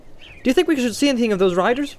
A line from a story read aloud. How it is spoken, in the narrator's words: asked Pippin cheerfully